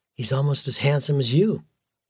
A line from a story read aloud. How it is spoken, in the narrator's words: Gwen whispered softly in his ear